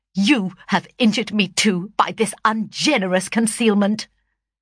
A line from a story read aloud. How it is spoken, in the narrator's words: said he sternly